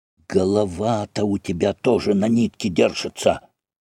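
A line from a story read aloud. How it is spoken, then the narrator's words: Whispering. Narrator (Russian): Другие двое зашептали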